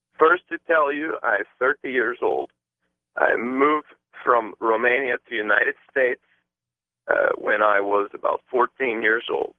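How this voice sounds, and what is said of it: Non-native English accent. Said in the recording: “I apologize for accent. It's hard time understand.”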